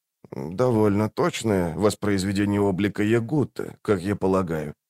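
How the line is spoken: Soft voice. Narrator (Russian): мягко проговорил он

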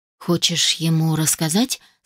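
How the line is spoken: Calm question. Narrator (Russian): спокойно спросил Питер

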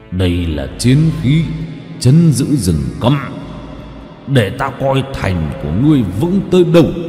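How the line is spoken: Growling. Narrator (Vietnamese): Hắn gầm gừ

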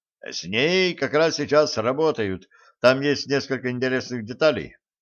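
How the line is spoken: Brisk, cheerful reply. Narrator (Russian): бодро ответил криминалист

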